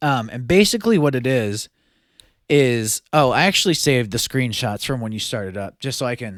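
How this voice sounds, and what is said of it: Usual voice. Nothing is said of it.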